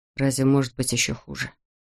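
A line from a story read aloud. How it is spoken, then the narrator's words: Quiet. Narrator (Russian): тихо проговорил он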